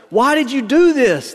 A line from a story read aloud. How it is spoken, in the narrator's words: the man called out